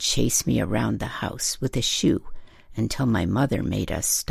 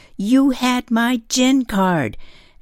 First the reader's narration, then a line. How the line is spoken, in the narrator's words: scream in playfulness